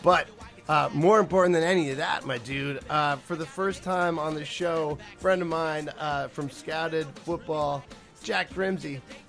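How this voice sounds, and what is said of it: Hoarse, fading voice. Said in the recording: “I'm a little bit under the weather ... as you can tell, I'm kind of losing my voice”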